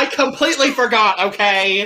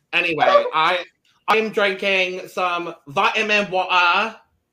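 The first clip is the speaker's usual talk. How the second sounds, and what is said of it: Put-on British accent. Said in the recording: “doing my best British accent.”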